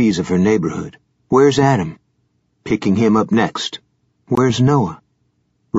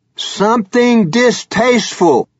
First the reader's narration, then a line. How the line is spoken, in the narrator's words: Blue roared back